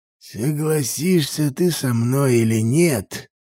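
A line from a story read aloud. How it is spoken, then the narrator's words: Through gritted teeth. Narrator (Russian): процедил Аполлеон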